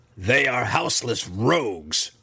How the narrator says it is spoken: she spat in response

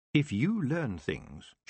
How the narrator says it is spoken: she finished softly

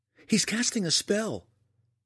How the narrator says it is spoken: Eleni cried

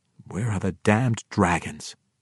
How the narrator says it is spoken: he could only mutter once more

